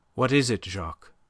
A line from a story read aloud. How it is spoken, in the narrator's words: Her voice was steady now that the need for self-control seemed thrust upon her